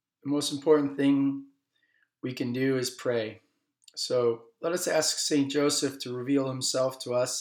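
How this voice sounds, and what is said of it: Slightly hoarse voice. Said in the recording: “a little hoarseness in my voice”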